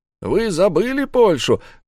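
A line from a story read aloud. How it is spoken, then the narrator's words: Shouted. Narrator (Russian): крикнул Мервин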